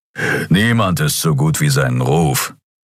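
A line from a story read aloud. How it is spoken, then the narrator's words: Growling. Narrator (German): knurrte Keru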